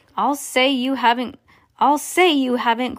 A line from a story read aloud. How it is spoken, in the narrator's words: cried Mrs